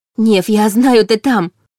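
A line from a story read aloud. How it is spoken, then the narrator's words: Excited interruption. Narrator (Russian): перебила Лиля взволнованно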